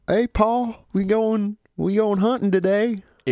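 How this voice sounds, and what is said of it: Put-on Southern accent. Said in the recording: “Southern accents ... Every time I do a Southern accent, I feel like I accidentally slip into a British accent because I'm not good at it.”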